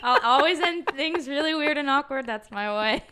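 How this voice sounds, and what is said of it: Odd put-on weird voice. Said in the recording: “that weird voice. ... I'm still speaking like this”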